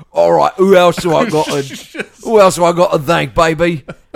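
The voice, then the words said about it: Impression with Artful Dodger Cockney accent. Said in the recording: “He was eloquent while sounding like the Artful Dodger. ... from Oliver Twist.”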